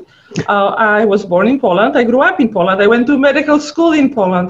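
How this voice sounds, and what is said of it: Funny foreign accent. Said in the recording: “I have funny accent.”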